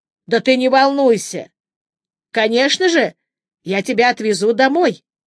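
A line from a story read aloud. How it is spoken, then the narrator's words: Sudden loud speech. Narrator (Russian): Хиераги вдруг громко сказал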